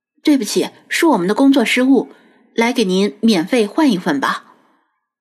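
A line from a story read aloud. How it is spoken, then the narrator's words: Low, deep voice. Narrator (Chinese): 沉声说道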